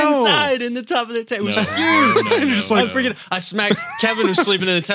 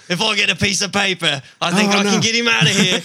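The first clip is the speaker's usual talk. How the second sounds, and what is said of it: Imitates another person's voice. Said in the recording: “I'm like Steve Irwin ... That's one impersonation that I cannot do. That's awesome.”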